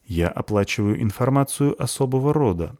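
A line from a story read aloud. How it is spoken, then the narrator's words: Calm reply. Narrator (Russian): отвечает спокойно тот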